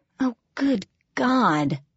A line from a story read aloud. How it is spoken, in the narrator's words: I groaned